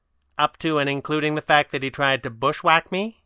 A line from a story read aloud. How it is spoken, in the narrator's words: Kit asked sweetly